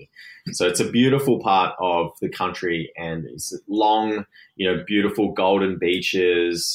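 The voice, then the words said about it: Australian accent. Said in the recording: “you're originally from Australia, as the accent tells us”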